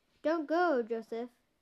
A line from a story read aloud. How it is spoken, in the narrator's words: Wally cried out